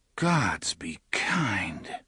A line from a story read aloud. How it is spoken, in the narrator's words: Alain whispered